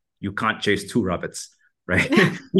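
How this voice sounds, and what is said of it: Imitates a German accent, poorly. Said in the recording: “I'm gonna butcher this German accent”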